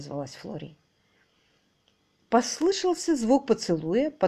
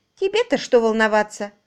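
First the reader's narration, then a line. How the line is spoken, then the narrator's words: Snapping back. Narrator (Russian): огрызнулась Флори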